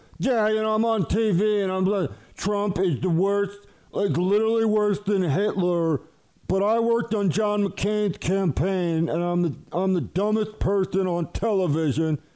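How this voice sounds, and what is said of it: Imitates another person's voice. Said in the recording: “my Steve Schmidt impersonation is spot on”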